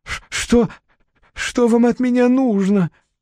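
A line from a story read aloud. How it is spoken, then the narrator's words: Barely audible trembling voice. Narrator (Russian): проговорил он едва слышным дрожащим голосом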